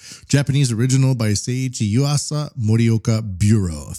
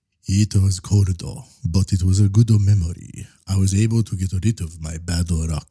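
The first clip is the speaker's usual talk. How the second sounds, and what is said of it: Put-on Japanese-style English accent. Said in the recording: “Sorry, I did it. ... I'll read that last quote in a normal accent. ... I went for the way a lot of people in Japan speak.”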